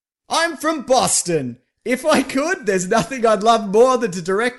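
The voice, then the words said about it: Ben Affleck impression, Boston accent. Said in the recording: “my Ben Affleck voice ... the impression ... a substitute for a Boston accent”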